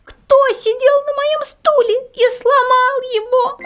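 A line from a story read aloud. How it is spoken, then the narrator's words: Small squeaky voice. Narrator (Russian): Мишутка пропищал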